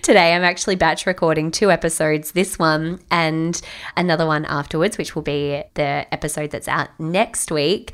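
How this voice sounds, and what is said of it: Slightly husky voice. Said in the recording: “I've got a bit of a cold situation going on. So you're going to have my uh, slightly husky, somewhat sexy voice.”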